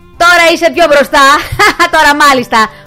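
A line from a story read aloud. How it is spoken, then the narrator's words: Group shouting, laughing. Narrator (Greek): φώναξαν όλοι, ξεκαρδισμένοι από τα γέλια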